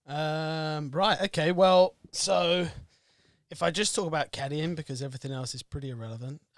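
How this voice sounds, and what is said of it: North London English accent. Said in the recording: “A bit of an accent. Where are you from? ... So, from London. Well, North London.”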